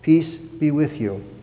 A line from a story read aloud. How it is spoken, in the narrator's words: Jesus saying in a soft voice